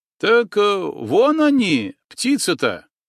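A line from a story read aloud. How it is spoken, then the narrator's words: Joyful reply. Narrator (Russian): радостно откликнулся парень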